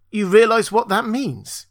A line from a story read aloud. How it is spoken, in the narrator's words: He gasped out the words